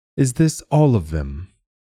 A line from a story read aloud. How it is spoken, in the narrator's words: the ecclesiast asked